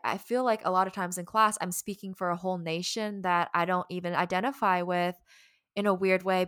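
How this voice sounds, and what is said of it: Southern American accent. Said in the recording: “I am Southern. I say y'all, you can hear it actually in my accent a lot... they're like, oh, we can hear it”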